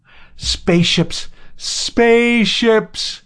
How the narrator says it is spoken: he howled in English

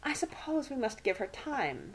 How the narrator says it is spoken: she murmured

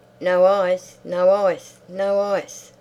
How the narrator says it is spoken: she shouted gaily

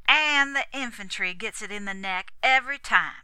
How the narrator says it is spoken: finished savagely

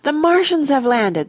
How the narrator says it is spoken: they cried

